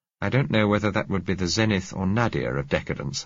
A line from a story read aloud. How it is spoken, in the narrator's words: I said